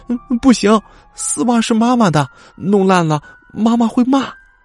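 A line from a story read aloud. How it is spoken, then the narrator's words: Crying child. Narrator (Chinese): 小孩却哭起来了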